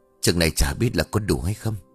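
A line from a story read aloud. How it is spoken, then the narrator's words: Old woman's quiet sigh. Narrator (Vietnamese): bà mới ngồi lặng im rồi thở dài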